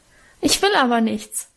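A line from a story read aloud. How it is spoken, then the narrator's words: Sobbing. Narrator (German): schluchzte ich los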